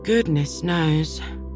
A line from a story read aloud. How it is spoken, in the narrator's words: Paul sighed deeply